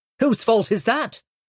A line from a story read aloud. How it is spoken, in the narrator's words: snapped